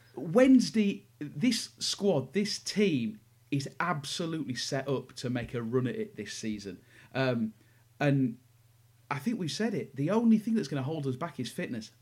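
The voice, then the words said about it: Excited, enthusiastic voice. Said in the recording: “I'm really, really excited ... I know you can hear it in my voice.”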